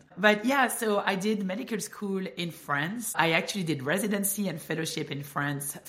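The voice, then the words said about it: Strong French accent. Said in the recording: “I'm French. Cannot hide it. Apparently, I have an accent... who is this person with a strong French accent?”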